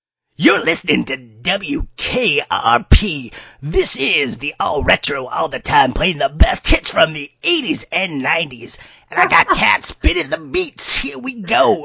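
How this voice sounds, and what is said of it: Loud rock radio DJ voice. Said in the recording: “a rock radio voice ... introduce it in the way that like a DJ would. So it might be a little loud”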